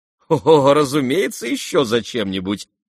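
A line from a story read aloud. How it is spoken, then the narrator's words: Laughing. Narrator (Russian): рассмеялся тот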